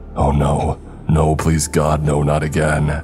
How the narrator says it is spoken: Kurt croaked

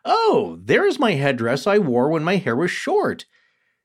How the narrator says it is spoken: immediately exclaimed

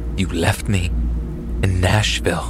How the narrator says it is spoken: in an almost sinister voice, she said

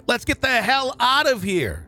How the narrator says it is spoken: Burley scream

